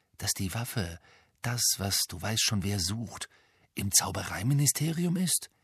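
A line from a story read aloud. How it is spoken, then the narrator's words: Whisper. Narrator (German): flüsterte Ron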